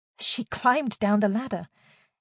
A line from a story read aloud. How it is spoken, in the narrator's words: Jade blurted, nervously toying with her fingers